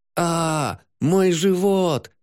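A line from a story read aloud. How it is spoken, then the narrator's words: Scream. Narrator (Russian): закричала Арым, схватившись за него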